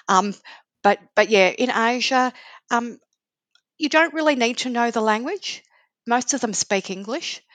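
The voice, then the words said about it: Australian accent. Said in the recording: “the Australian accent that helped me”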